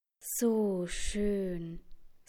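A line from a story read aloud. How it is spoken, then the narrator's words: Space pilots sighing together. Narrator (German): seufzen die Weltraumpiloten gleichzeitig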